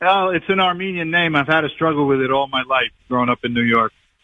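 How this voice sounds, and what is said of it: New York accent. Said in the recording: “your New York accent. I can hear it.”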